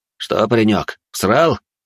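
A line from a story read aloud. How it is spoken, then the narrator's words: Snorting young man. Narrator (Russian): хмыкнул парень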